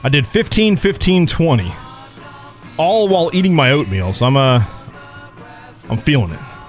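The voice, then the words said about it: Out of breath, panting. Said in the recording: “I'm a little bit out of breath.”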